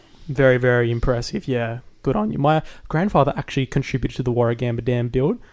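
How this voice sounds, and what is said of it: Usual voice. Nothing is said of it.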